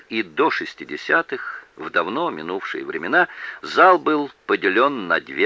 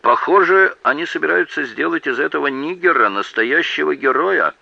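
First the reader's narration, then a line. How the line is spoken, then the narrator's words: Loud remark, rural man. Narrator (Russian): заметил какой-то мужчина, по виду сельский житель, достаточно громко для того, чтобы слова его услышали и в первом ряду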